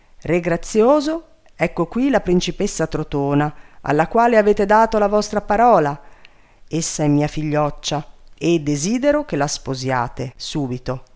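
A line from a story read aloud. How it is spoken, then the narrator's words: Commanding voice. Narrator (Italian): Sussio gli disse con voce di comando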